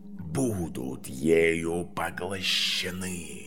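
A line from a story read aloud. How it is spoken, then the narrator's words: Hissing snake. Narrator (Russian): прошипела змея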